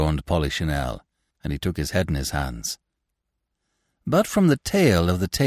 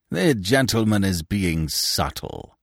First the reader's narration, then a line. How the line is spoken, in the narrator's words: sneered Binet